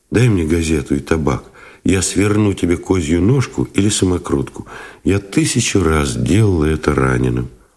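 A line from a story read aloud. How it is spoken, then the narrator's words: Soft request. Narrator (Russian): попросила мягко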